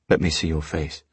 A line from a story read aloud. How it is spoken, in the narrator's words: I said